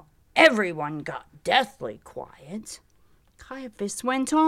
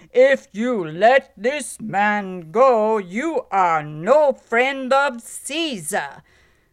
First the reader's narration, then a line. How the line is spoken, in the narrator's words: said to the governor in a loud voice